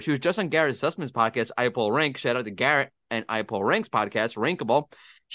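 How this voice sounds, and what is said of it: American accent. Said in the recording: “my American accent, botching every name in another language”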